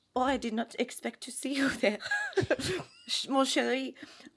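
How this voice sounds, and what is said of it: Bad put-on French accent. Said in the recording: “Did you have a French accent? ... It was really bad.”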